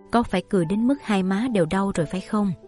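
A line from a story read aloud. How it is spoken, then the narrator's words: Gentle. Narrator (Vietnamese): Như Ý nhẹ nhàng nói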